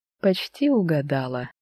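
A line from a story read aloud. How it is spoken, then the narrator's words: Cheerful chuckle. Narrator (Russian): весело усмехнулся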